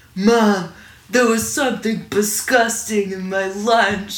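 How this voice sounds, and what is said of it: Deep, scratchy old New Yorker voice. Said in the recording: “Like a weird, deep-voiced, almost Woody Allen. ... Like a very New York-y. ... more scratchy ... kind of an old Jewish New Yorker”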